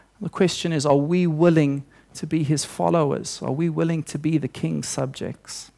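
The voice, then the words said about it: South African accent. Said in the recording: “I wouldn't like to listen to a South African accent for too long”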